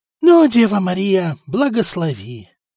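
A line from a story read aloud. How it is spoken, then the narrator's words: Breathless, heart pounding. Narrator (Russian): выдохнул Стефан, унимая выпрыгивающее из груди сердце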